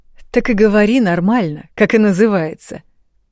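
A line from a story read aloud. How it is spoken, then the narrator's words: Laughing speech. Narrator (Russian): продолжал он смеяться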